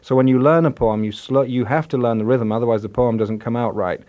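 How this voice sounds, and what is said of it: Northern English accent. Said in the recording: “we can tell from your accent you're not from Seattle ... I grew up in the north of England in Yorkshire”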